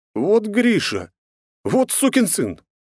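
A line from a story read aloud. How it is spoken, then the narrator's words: Exclaimed. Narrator (Russian): воскликнул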